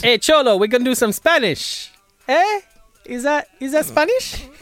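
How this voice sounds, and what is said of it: Mock Spanish accent sounding Italian. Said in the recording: “My Spanish sound a little Italian.”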